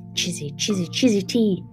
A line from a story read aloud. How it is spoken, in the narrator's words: the bird wheezed again